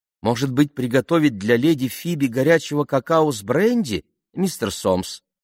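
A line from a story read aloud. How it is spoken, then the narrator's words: Plain. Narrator (Russian): спросила миссис Мортлок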